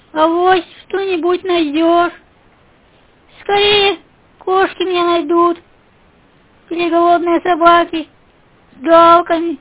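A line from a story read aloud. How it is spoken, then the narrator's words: Sad confirmation. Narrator (Russian): грустно подтвердила наружка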